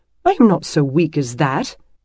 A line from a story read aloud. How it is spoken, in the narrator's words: protested indignantly